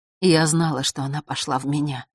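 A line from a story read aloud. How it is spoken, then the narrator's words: Whisper. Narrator (Russian): прошептала белая королева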